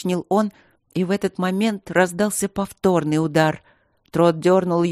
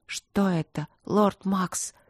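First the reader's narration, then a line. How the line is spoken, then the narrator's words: Trembling whisper. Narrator (Russian): прошептала она дрожащим голосом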